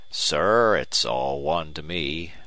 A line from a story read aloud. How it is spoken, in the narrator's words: he said blandly